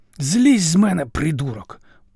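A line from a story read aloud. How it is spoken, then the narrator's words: Hoarse rasp. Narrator (Ukrainian): прохрипів ворог і напрочуд знайомим голосом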